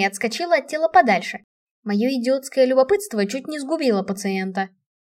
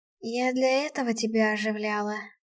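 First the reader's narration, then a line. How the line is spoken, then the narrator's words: Hoarse, attempted joke. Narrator (Russian): прохрипела я севшим голосом, пытаясь пошутить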